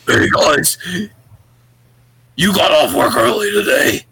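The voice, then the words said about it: Creepy horror-movie character voice. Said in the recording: “best impression that I can do ... She sounded like a fucking horror movie character ... It was so terrifying.”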